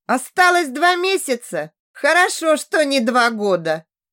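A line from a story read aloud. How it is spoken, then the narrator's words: Laughing. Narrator (Russian): засмеялся Лоу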